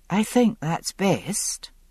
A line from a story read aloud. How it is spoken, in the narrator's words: she said quietly